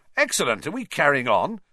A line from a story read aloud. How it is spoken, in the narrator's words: said Fred Weasley, brightly